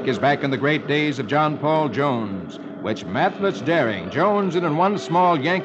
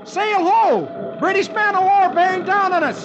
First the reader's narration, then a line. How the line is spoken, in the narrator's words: From high up in the shrouds, Dick, who is the watchman, yells